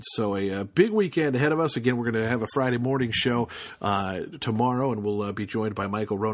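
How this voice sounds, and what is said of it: Weak, tired voice. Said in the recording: “my voice is getting a little bit weak tonight”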